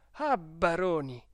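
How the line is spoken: Exclaimed. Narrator (Italian): esclamò Don Abbondio

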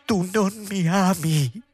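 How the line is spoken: Sobbing exclamation. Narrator (Italian): esclamò singhiozzando

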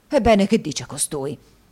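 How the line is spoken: Flushed exclamation. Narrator (Italian): esclamò Squeers facendosi rosso

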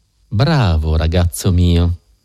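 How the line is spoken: Gentle voice. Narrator (Italian): disse Holmes con voce dolce

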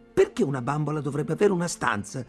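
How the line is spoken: Belligerent tone. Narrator (Italian): dissi con tono bellicoso

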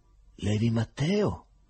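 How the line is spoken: Sick man's hoarse question. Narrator (Italian): chiese l'ammalato con voce rauca

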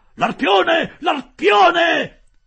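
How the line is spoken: Shouting. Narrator (Italian): gridò Ned

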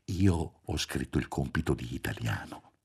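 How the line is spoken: Murmured. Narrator (Italian): mormorò Roberto

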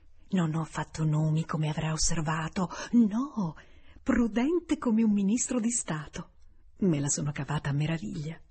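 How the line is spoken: Added under breath. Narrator (Italian): Bates aggiungesse sottovoce

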